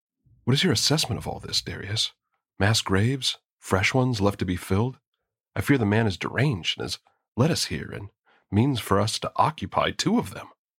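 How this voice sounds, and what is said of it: Hushed, quiet voice. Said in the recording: “in a hushed voice”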